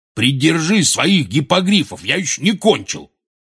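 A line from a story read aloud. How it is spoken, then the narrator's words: Barking. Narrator (Russian): рявкнул Хагрид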